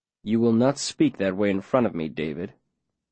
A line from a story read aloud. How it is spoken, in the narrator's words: the mayor says, calmly, but in a voice that ain't joking